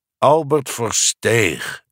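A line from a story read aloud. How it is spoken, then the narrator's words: Repeating with sigh. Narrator (Dutch): herhaalde met een zucht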